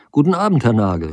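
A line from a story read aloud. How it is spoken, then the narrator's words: Calling out. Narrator (German): rief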